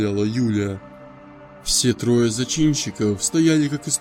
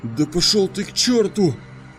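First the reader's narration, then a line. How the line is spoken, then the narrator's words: Young woman shouting. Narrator (Russian): выкрикнула девушка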